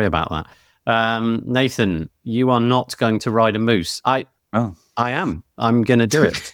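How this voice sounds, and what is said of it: Usual voice. Nothing is said of it.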